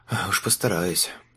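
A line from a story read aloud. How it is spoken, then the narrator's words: Muttered. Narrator (Russian): буркнул Лючана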